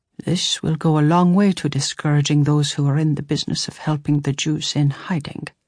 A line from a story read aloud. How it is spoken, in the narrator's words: Father murmured